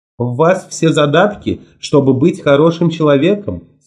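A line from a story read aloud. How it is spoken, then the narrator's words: Plain. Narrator (Russian): сказала Мод Брюстер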